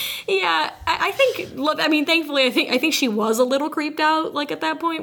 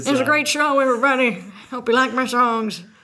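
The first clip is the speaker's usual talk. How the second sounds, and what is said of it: Imitates a film character's accent. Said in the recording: “his accent was very interesting throughout the movie”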